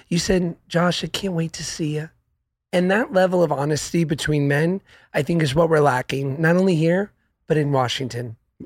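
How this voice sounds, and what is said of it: Slightly hoarse, congested voice. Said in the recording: “I am a little hoarse because I have a head cold. So I also sound sexy right now.”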